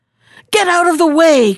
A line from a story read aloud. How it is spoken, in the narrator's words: cried he